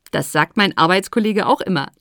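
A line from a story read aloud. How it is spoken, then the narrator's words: Laughing. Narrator (German): lachte Madagaskar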